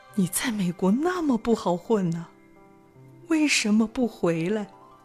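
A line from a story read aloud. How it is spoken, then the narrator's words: Choked up. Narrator (Chinese): 这次轮到我哽咽了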